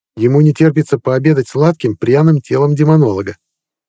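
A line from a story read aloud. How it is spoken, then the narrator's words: Snort. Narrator (Russian): хмыкнул Магар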